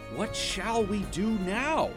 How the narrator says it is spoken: Iago cried

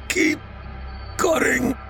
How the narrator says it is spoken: he choked out

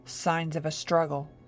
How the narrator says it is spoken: he said grimly

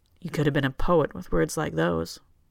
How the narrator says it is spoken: Johann says, a little coldly

